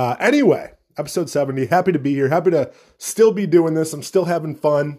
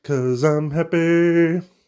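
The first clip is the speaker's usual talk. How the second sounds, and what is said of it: Sung imitation of another person's voice. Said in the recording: “That was a good Pharrell impression, right?”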